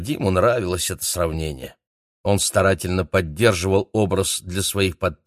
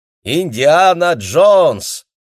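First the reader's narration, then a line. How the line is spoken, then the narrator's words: Crowd shouting happily. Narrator (Russian): прохожие довольно кричали ему вслед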